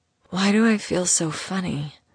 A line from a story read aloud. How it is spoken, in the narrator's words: She mumbled against his skin